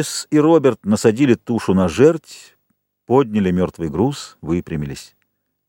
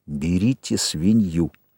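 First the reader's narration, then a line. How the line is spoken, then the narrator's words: Whisper. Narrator (Russian): Джек сказал шепотом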